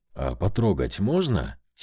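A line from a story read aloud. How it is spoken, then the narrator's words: Quiet question. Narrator (Russian): тихо спросил Саша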